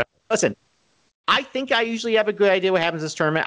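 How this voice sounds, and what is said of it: Nasally Rochester accent. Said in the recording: “My nasally Rochester accent.”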